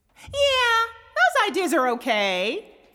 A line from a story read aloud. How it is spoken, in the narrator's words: Fiddles chirped with her high soprano voice